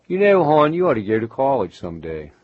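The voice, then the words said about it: Put-on Baltimore accent. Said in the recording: “It's the Baltimore accent.”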